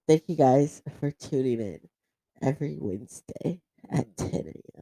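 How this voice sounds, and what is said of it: Deep voice, sounds like a boy. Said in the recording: “you sound like a fucking boy... You sound like a boy.”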